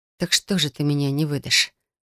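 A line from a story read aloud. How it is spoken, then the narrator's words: Barely audible, through teeth. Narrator (Russian): Едва слышно процедила я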